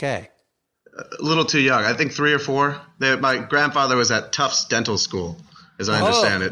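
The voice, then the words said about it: Boston Brahmin accent. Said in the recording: “this a little Boston Brahmin accent ... That's a classic Tufts Dental School accent.”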